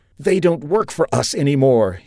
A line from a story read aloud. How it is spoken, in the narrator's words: he pleaded, his voice now getting desperate